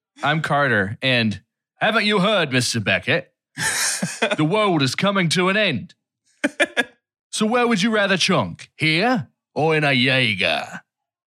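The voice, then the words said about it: Imitates another person's voice. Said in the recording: “That was a good Idris Elba. ... That was a very good Idris Elba.”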